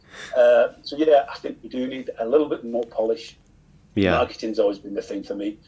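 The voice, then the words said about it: Strong Wigan accent. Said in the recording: “I'm getting here with a very strong Wigan accent”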